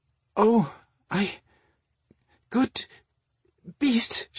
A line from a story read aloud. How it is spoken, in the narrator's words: she stammered when it raised its head and suddenly licked her chin